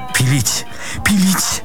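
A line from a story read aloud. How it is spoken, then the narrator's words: Babbled. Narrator (Russian): пролепетал Паниковский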